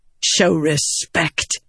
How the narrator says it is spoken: Venli snapped

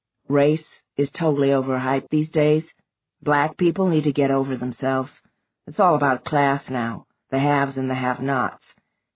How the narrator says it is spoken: he told her evenly

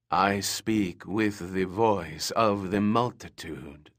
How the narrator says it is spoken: the crone said in an eerie, echoing voice

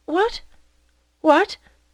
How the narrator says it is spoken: dreaming of the unlimited number of rendezvous represented by those 2,000 francs, she stammered

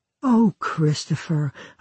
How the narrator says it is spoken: a bride might sigh

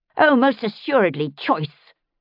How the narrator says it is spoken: Sylvia hissed

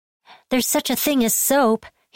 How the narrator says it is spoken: he shouted in imitation of his friend's distress

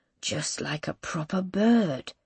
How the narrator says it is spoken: he murmurs again

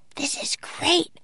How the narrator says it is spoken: whispered Annie

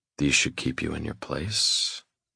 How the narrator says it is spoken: I whisper with a wicked grin

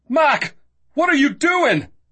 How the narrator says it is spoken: Christian roared

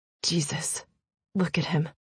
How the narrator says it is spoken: Theo said softly

